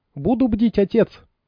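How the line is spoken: Squeak. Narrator (Russian): пискнула

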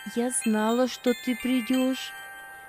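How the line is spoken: Tender, woman. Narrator (Russian): ласково проговорила она

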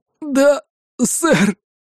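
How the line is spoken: Breathless, in pain. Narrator (Russian): выдохнул, держась за сломанную коленку

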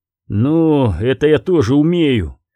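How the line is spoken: Grim. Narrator (Russian): мрачно сказал Корум

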